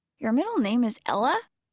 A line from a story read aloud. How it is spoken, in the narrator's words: Alex blurts